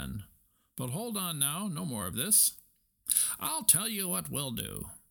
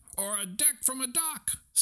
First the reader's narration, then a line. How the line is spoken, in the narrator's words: screamed Stuart